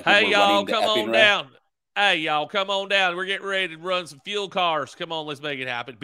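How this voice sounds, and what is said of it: Put-on Southern Tennessee accent. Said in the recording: “You got to do your best Mainer, ... Tennessee combo accent ... We go from that accent to, hey, y'all, come on down.”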